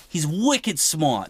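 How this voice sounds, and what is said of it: Put-on Boston accent. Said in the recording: “my great Boston accent.”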